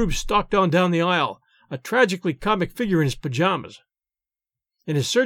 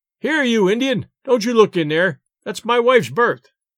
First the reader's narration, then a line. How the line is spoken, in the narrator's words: yelled Stringer